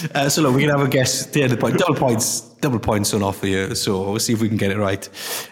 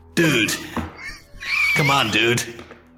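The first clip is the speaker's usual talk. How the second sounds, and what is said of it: Put-on American accent. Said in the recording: “That's my American accent. That's my American accent.”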